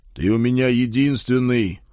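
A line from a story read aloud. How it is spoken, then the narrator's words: Dry, curt. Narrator (Russian): сухо откликнулся я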